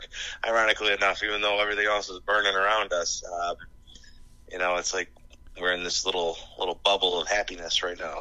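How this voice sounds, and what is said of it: Hoarse voice from screaming. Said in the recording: “my voice is a little out today because ... definitely some screaming going on last night”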